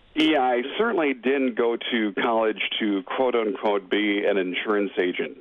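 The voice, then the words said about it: Polished radio announcer voice. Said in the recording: “you've got a radio voice”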